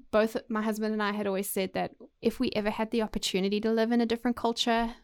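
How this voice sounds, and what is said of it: Noticeable non-local accent. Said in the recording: “they hear my accent for the first time”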